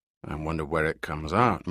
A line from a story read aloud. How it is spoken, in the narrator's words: murmured Giordino between breaths